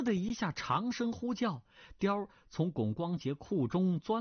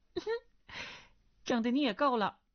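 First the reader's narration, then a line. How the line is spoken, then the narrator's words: Girlish giggling. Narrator (Chinese): 梁上少女咯咯娇笑说道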